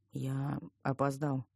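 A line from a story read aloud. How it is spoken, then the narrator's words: Muttered. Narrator (Russian): пробормотал он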